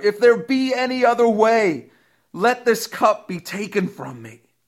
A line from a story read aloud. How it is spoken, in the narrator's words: Jesus was fully human when he cried out to his heavenly Father